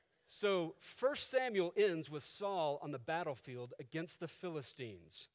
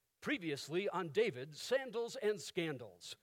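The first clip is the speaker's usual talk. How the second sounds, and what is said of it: TV announcer voice. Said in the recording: “in my best TV announcer voice”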